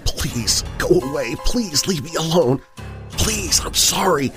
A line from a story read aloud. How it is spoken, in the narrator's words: whispered